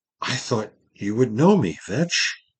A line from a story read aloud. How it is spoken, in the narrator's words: His voice shook a little as he said